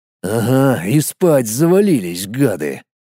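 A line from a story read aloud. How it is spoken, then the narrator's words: Grumbling. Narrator (Russian): проворчал Колян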